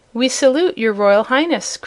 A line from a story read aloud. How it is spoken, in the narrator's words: cried the wizard